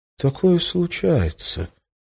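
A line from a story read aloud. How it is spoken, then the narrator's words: Uncertain. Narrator (Russian): неуверенно начал он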